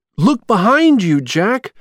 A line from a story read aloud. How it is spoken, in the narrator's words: shouted Sally